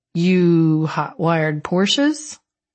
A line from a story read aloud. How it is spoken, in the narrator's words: I laughed